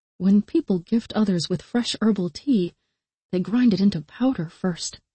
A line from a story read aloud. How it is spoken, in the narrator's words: the other Asha murmured